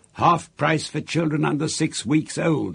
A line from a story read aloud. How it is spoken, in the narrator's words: Aunt Sponge shouted